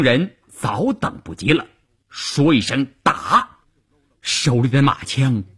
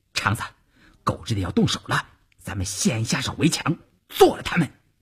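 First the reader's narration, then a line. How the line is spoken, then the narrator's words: Low voice. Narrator (Chinese): 邵月低声对前面的晋中人说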